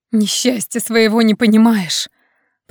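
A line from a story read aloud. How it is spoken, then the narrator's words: Hissing. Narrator (Russian): Продолжала шипеть Нед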